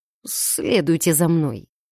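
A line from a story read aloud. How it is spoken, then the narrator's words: Uncertain, fat man. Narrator (Russian): неуверенно выдал толстяк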